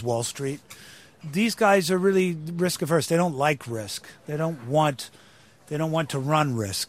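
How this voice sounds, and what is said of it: American accent. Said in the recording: “hear you speaking this way and they're going to say, wait a minute, Damian Lewis is a Brit ... I speak in an American accent from the moment I get in the van in the morning”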